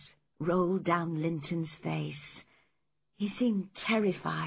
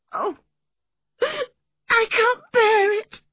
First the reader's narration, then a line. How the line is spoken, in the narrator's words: he sobbed